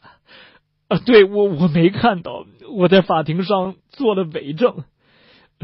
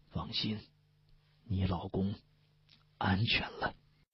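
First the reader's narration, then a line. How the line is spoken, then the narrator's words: Low, soft voice. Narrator (Chinese): 顾磊压低声音，轻轻的对他说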